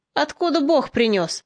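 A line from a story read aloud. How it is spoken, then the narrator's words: Mocking question. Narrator (Russian): насмешливо спросил отделенный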